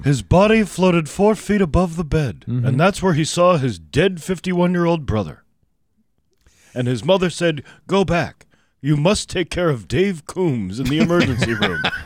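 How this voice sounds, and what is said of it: Imitates another person's voice. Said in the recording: “That's a pretty good Robert Stack impression. ... It's not too bad, actually. ... I would keep working on it.”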